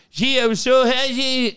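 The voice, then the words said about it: Heavy French-Canadian accent. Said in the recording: “heavy French-Canadian accent.”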